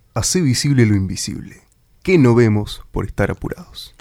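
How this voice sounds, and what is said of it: Announcer-style broadcast voice. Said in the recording (Spanish): “Decilo vos con voz de locutor”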